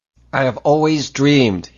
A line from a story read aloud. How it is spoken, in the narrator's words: he mouthed fiercely